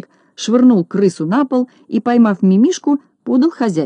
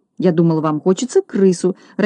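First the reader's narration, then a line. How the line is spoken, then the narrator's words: Confused mumble. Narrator (Russian): растерянно пробормотал Бигль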